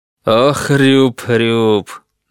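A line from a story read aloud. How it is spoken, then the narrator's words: Laughing. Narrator (Russian): Данцигер засмеялся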